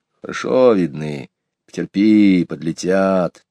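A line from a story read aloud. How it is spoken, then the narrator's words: Whispered reply. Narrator (Russian): также шепотом ответил Иван Захарыч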